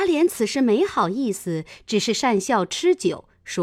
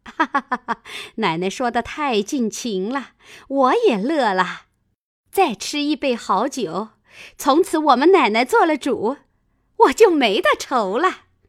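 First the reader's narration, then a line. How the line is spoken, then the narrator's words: Laughing. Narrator (Chinese): 赵妈妈笑道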